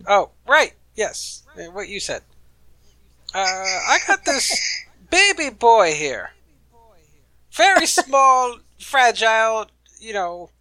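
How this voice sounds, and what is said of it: Character voice. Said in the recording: “in your Philip voice”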